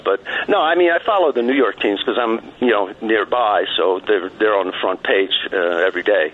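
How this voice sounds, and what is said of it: Slight New York accent. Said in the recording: “I detected that New York accent... I heard a little bit of it.”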